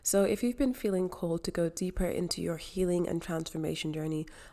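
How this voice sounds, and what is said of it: Voice cracking, going hoarse. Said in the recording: “losing my voice here”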